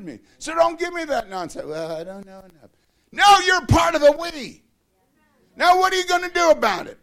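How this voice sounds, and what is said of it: Screaming, loud preaching voice. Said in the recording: “why are you screaming”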